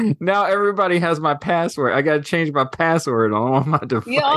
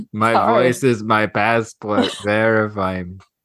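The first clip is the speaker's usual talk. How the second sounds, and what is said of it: Robotic voice imitating another person. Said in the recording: “I don't even know what accent that was ... That was like part robot, part Arnold Schwarzenegger.”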